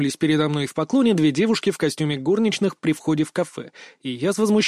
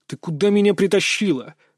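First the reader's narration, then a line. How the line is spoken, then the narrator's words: Hissed. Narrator (Russian): прошипел я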